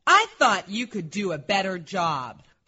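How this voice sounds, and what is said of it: Disappointed stern teacher voice. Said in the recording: “seems like you're very disappointed ... I'm just practicing my teacher voice.”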